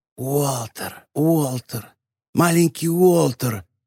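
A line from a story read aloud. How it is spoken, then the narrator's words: Echoing whisper. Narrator (Russian): эхом прошептало существо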